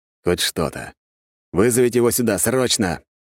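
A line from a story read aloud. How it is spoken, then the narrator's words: Growl. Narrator (Russian): рыкнул я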